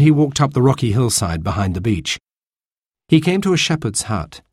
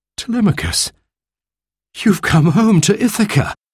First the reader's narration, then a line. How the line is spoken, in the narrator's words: he cried